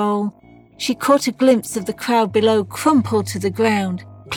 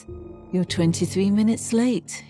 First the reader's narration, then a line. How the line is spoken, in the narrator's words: he murmured